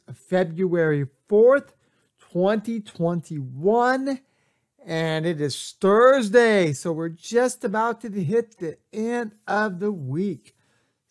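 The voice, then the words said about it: Hoarse, fuzzy voice. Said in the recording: “my voice sounds a little bit hoarse or fuzzy ... a little bit voice a little bit hoarse”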